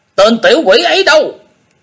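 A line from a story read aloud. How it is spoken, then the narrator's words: Angry shout. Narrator (Vietnamese): tiếng thét, một cặp trung niên giận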